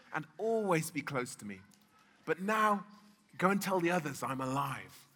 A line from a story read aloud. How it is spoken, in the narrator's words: Jesus said gently